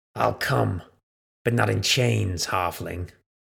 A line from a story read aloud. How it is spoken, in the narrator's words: he snarled